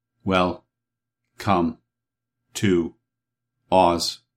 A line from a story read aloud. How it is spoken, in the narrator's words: said the copper man in a monotonous tone